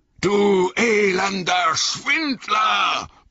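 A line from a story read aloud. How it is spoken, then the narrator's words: Bellowed. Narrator (German): brüllte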